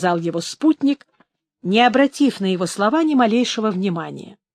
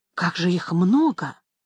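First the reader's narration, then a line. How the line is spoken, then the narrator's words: Quiet, hurried. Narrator (Russian): тихо и торопливо проговорил ястреб своим собственным голосом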